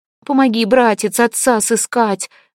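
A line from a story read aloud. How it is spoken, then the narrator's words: Pleading turtledove. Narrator (Russian): взмолилась горлица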